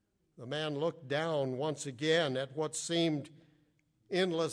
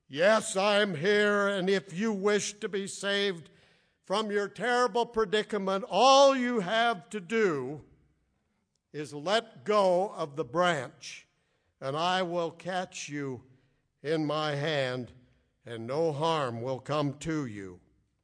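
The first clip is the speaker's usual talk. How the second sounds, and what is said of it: Deep booming baritone voice. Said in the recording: “a deep baritone voice ... This deep baritone voice boomed from heaven”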